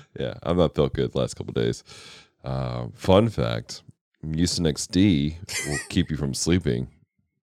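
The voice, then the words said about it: Unusually deep, sick-sounding voice. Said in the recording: “the very deep baritone today... It's because I'm not feeling good... Please excuse my voice”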